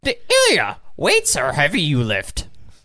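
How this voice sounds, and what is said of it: Strained Yoda-style character voice. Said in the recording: “Yoda impression ... You sound constipated”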